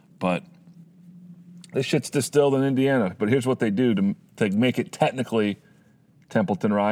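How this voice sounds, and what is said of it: Usual voice. Nothing is said of it.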